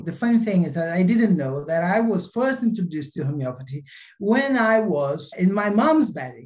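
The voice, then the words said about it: Brazilian accent. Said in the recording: “the accent's probably going to give you away that originally from Brazil”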